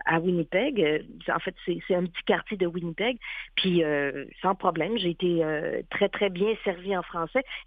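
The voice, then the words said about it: Québécois French accent. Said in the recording (French): “elle a tellement un accent québécois”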